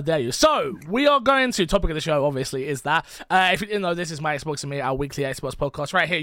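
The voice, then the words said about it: Croaky, hoarse voice. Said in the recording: “my voice sounds a little bit croaky ... I woke up with a sore throat”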